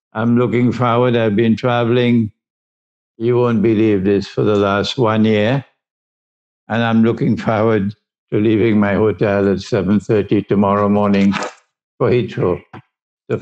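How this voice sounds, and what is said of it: Caribbean accent. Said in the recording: “I suspect you will discover something of the Caribbean in my accent.”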